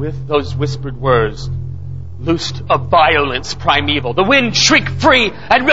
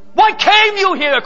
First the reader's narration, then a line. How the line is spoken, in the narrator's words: cried out a man